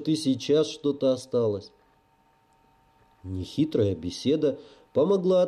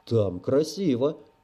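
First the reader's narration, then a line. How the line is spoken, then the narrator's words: Boy's sigh. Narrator (Russian): вздохнул мальчик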